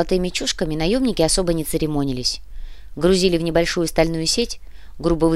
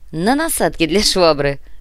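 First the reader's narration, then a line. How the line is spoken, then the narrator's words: Laughing. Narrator (Russian): Рассмеялся Артем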